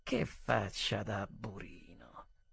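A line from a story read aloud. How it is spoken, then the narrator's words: Clear whisper. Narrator (Italian): le mie labbra dicevano in un sussurro, ma chiaramente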